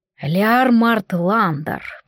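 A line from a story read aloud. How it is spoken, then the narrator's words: Speaking through gritted teeth. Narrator (Russian): процедил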